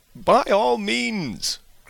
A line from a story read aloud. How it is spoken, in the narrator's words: cried Bingley